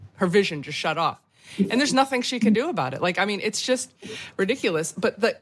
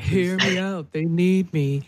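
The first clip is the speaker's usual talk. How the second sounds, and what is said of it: Elizabeth Holmes impression. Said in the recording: “You do her accent again.”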